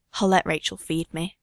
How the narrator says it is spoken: he whispers

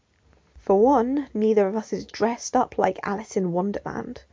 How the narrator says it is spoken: Tim muttered under his breath

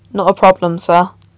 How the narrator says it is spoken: Con said quietly

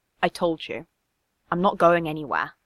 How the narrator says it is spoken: said more softly

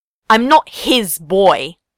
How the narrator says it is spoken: Ace snapped

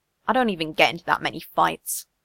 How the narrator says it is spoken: Steve mutters

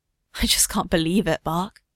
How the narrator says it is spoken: Steve whispers

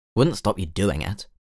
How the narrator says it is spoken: Tim muttered

